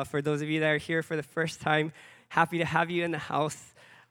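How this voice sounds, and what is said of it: Raspy, hoarse voice. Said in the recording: “My voice is a little bit raspy.”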